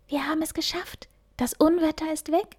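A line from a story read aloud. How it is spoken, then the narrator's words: Happy whisper. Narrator (German): flüsterte glücklich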